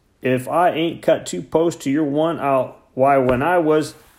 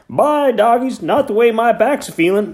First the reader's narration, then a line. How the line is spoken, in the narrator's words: Hank groaned